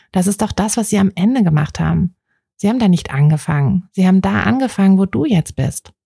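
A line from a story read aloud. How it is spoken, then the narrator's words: Calm speech. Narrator (German): sagte er ruhig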